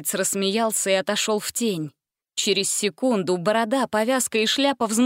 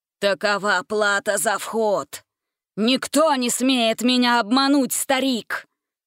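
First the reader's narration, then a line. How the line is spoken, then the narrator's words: Menacing growl. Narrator (Russian): прорычал бандит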